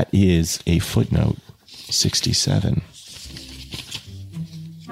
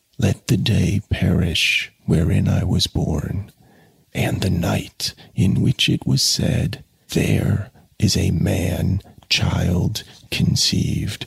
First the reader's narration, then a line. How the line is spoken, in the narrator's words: He whispered slowly, his parched lips scarcely moving